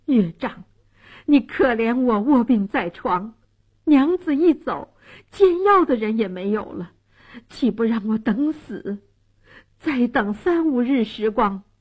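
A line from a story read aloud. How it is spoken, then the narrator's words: Desperate pleading. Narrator (Chinese): 蒋世龙苦苦哀求说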